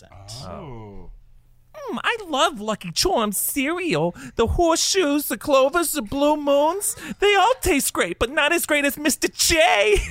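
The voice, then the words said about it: Harley Quinn character voice. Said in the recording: “confess his love of Lucky Charms cereal in his best Harley Quinn accent”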